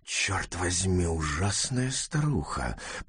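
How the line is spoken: Whispered through teeth. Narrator (Russian): прошептал он сквозь зубы

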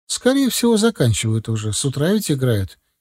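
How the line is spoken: Uncertain wife. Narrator (Russian): неуверенно ответила жена

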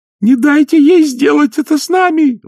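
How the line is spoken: Shriek. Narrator (Russian): взвизгнула Агнесса

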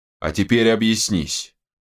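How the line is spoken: Curt, calm command. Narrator (Russian): коротко и вроде даже спокойно приказал паладин

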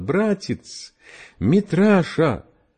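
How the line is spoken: Sobbing. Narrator (Russian): рыдая

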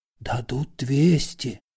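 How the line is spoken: Whispering. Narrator (Russian): зашептал переводчик

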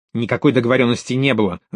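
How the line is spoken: Angry. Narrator (Russian): зло сказал итальянец

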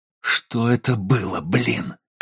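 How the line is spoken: Growl. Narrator (Russian): прорычал он

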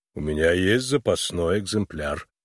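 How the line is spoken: Calm. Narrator (Russian): спокойно произнес Финджи

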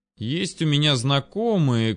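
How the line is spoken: Unsure mutter. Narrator (Russian): как-то без особой уверенности в голосе пробормотал пиромант

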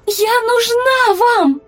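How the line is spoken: Shouted. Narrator (Russian): крикнула она

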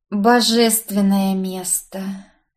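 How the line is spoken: Drawling. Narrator (Russian): протянула я

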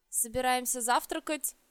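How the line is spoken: Unnaturally cheerful. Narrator (Russian): как-то неестественно бодро ответил Динар

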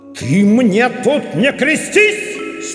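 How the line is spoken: Terrifying bark. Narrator (Russian): Страшным голосом гаркнул на него Момус

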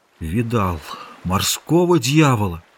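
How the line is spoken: Muffled, hollow voice. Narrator (Russian): Ныряльщик сказал глухим голосом

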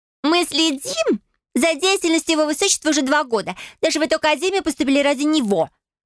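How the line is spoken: Shrill woman's reply. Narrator (Russian): Визгливо отозвалась 3-я блондинка

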